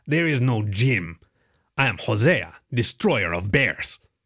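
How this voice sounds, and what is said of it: Fake Mexican accent. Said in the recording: “his voice changed to a fake Mexican accent.”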